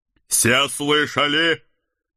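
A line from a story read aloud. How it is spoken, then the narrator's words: Loud announcement. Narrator (Russian): громко оповестил Седрик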